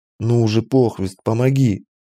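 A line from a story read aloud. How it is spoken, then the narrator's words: Pleading. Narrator (Russian): взмолился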